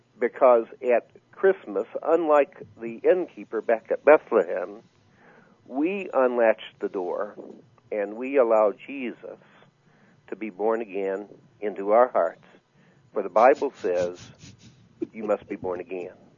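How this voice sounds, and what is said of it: Texas accent. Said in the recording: “I like the Texas accent. ... That is classic.”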